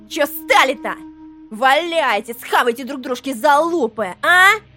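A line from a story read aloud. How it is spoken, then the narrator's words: Shrill squealing creature. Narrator (Russian): визгливо посоветовало трепыхавшееся в кресле существо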